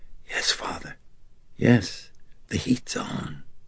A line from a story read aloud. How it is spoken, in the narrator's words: she nodded her head and whispered